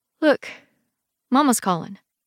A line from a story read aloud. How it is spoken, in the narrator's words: I say, trying to keep my voice steady